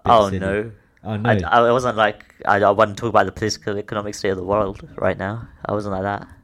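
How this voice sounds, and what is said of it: Imitates another person's voice. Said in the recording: “you're trying to do a Jane Smith accent right there... But I don't think that's how he says it.”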